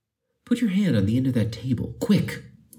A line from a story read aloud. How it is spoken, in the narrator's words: he exclaimed